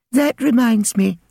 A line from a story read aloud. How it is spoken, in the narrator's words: said sweetly